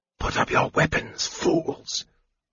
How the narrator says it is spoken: Raistlin said in a piercing whisper

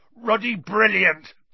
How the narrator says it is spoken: boomed Hagrid

